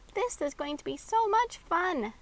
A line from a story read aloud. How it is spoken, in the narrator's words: Maxie giggled